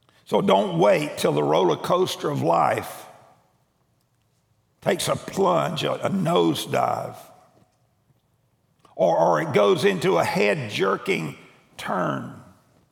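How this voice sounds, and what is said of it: Strained, troubled voice. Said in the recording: “sorry about my voice ... I've got a cough drop in my mouth”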